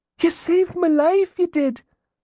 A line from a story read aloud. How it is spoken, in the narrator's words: the lad cried